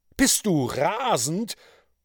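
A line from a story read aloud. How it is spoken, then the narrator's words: Horrified judge calling out. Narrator (German): rief der Richter entsetzt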